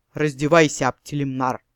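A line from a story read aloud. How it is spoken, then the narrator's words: Thunderous bass command. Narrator (Russian): Годзилла Шахидовна скомандовала громовым басом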